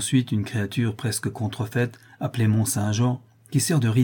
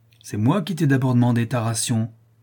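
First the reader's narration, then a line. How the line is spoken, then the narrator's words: Furious exclamation. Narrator (French): s'écria-t'elle, furieuse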